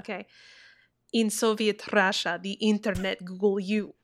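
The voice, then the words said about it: Bad put-on Russian accent. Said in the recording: “Say it in my really shitty Russian accent.”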